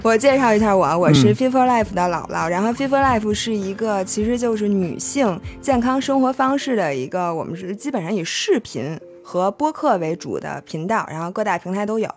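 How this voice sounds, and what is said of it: Strong Beijing accent. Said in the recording (Chinese): “一听这个口音就不用说了，北京人。... 太北京了。... 北京口音”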